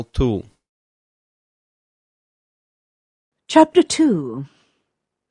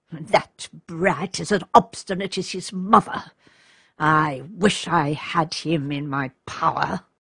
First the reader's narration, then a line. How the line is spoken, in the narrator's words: he murmured in an angry tone